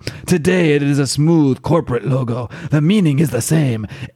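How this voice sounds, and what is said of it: Poorly done put-on accent. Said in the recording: “I am not going to continue trying to do this accent because it's hurting my throat ... my bad impression.”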